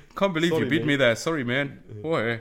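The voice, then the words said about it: Poor put-on Canadian accent. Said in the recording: “That was definitely not a great Canadian accent.”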